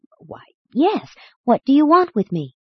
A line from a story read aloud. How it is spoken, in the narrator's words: The angry man was nonplussed, after a moment of embarrassing hesitation, stammered out